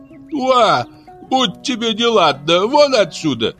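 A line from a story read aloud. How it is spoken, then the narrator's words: Shouted. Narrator (Russian): крикнула она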